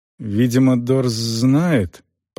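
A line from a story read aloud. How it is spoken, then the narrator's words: Muttering. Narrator (Russian): пробормотал Селдон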